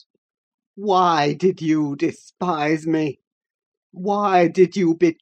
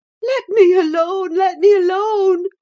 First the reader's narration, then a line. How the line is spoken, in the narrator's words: sobbed Catherine